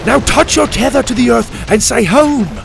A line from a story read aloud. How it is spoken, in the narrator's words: Dante shouted over the dinosaurs' roars and thundering footsteps